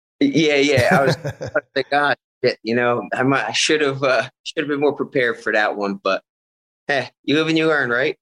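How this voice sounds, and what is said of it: Philadelphia accent. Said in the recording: “I hear like a Philly accent.”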